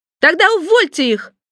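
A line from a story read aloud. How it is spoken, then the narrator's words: Shouting boss. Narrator (Russian): закричал шеф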